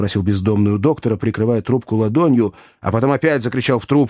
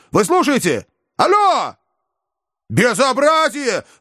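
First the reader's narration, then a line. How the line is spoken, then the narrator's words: Sudden yell. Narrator (Russian): вдруг завопил Иван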